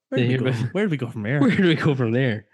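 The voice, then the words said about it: Put-on Northern Irish lilt. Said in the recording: “Apparently, we do an Irish accent ... a little bit of a Northern Irish lilt to my accent”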